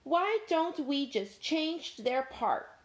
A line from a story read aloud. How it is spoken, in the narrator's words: Dog growled